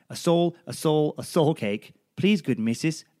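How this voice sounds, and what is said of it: Put-on Irish accent. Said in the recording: “I'm going to try and channel my Irish accent, so apologies to Irish people”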